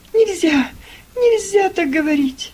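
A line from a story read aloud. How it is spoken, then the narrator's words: Girl sobbing. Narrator (Russian): Девочка зарыдала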